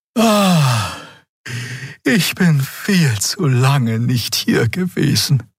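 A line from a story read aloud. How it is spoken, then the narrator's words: Sighed. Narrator (German): seufzte Xea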